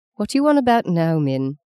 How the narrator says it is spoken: the housekeeper asked

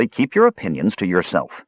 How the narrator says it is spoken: Tanis cut in sharply

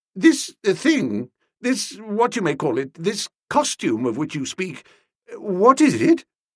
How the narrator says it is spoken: faltered

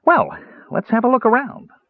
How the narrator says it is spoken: Tass said cheerfully

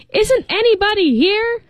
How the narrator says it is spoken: the voice suddenly became raucous, shouting

